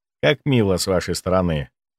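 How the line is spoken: Dry remark. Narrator (Russian): сухо заметил я

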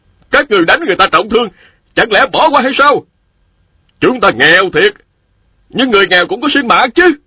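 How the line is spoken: Loud voices. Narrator (Vietnamese): 3 nam phụ lớn tiếng nói

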